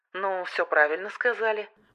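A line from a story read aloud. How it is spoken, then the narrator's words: Rude, curt remark. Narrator (Russian): грубо бросил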